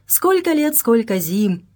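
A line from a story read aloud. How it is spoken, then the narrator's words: Joyful greeting. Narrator (Russian): радостно приветствовал он Вагнера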